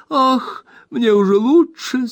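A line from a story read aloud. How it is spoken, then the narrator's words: Weak moan. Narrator (Russian): слабо простонала миссис Бардл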